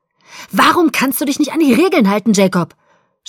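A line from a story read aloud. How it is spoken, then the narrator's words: Shouted. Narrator (German): schrie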